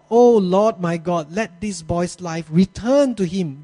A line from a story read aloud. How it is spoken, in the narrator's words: He cried to the Lord